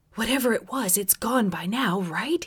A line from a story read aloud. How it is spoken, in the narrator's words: whispered so quietly it was difficult to understand him